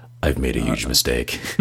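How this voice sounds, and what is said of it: Decent Job impression, Will Arnett. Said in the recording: “That's not a bad Job impression, by the way. Channeling your inner Will Arnett.”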